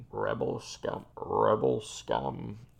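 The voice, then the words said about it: Darth Vader impression voice. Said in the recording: “How are you supposed to do a Darth Vader impression?”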